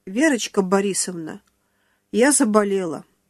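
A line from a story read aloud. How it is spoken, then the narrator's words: Glum report. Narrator (Russian): уныло сообщила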